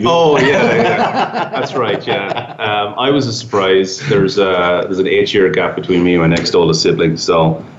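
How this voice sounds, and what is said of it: Irish Midlands accent. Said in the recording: “Grew up in the Midlands, County Leash. That's why I have such a neutral, understandable accent ... another Irish lady”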